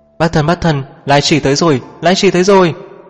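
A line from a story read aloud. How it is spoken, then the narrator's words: Shouting while running. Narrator (Vietnamese): Cố Sơ vừa đi vừa thét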